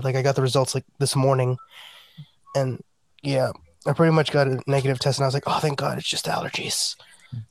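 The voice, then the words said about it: Worn, hoarse sick voice. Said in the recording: “my voice is still a little bit shot”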